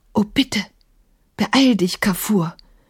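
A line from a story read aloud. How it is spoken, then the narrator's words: Murmur. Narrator (German): hörte Emma Maimun murmeln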